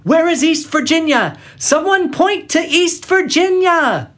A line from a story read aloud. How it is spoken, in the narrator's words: James Wilkin kept shouting